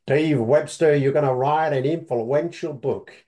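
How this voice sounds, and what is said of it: Poor imitation of Deep South accent. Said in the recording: “in this beautiful, deep South accent ... That's probably a very poor impersonation”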